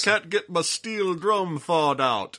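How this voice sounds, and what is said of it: Put-on Jamaican accent. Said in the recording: “my imitation of a Jamaican.”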